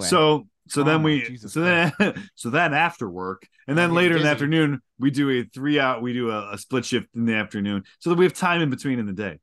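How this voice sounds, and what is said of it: Brooklyn accent. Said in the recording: “Are you from Brooklyn? ... I don't understand the accent.”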